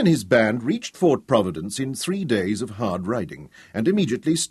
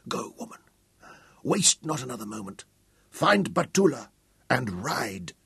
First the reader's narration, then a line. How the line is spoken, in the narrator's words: Although his face was contorted with agony, he whispered to her fiercely